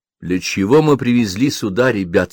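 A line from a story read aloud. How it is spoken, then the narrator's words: Plain. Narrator (Russian): спросил Вихра Кучинскую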